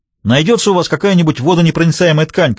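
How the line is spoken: Shouted. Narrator (Russian): крикнул он

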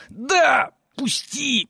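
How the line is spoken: Hiss. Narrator (Russian): прошипел Ивран

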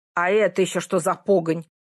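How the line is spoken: Very displeased question. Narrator (Russian): очень недовольным голосом спросил он

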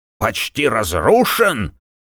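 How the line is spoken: Exclaiming. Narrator (Russian): воскликнул Рудольф

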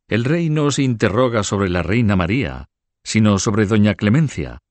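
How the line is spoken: Exclaimed. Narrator (Spanish): exclamó

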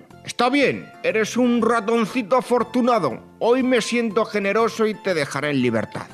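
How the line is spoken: Exclaiming. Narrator (Spanish): El león exclamó

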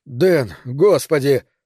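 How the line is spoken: Strained, forced out. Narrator (Russian): только и сумел я выдавить из себя

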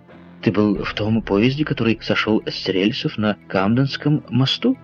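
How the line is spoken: Plain. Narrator (Russian): спросил Гленнерван

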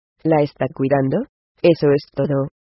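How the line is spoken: Calm tone. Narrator (Spanish): dijo Stu con tono calmado

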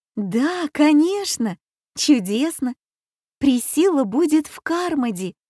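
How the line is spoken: Exclamation. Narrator (Russian): воскликнула Аня

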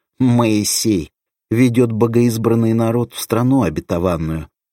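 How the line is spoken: Short mocking chuckle. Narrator (Russian): Оберштурмфюрер хохотнул

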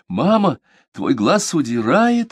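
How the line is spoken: Excited blurting. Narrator (Russian): взволнованно выпалила

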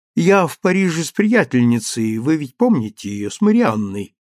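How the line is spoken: Ingratiating, insinuating. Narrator (Russian): вкрадчиво сказала она

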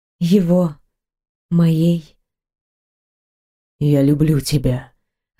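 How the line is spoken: Hoarse whisper. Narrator (Russian): раздался хриплый шепот

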